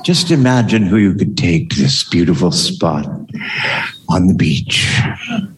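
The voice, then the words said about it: Sultry voice. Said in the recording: “do a sultry voice”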